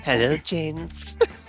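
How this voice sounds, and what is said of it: Effeminate villain character voice. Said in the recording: “impersonation. Blofeld's went very effeminate.”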